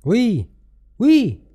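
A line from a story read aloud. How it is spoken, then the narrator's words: Shouted from all sides. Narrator (French): criait-on de tous côtés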